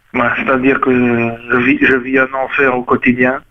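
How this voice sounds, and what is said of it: Disguised voice, put-on accent, pinched nasal. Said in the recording (French): “vous êtes en train de nous faire un accent, ou vous êtes naturel ... j'essaie de bloquer mon accent ... la petite pince à linge que vous avez installée sur votre”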